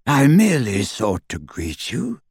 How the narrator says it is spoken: said Travers coolly

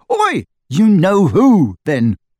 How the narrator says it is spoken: Harry shouted, goaded past endurance

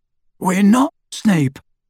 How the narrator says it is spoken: croaked Harry

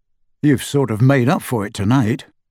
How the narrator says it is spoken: said Harry

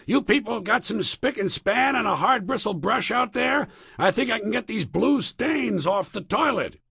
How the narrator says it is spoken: yelling

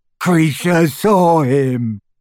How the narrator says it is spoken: gasped the elf, as tears poured over his snout and into his mouth

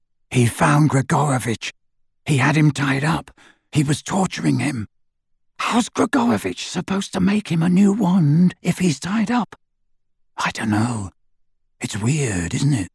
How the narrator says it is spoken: Harry whispered into the darkness

